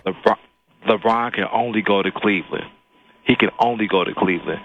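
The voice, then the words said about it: Deep announcer-style radio voice. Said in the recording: “I hear your radio voice, man. Very nice.”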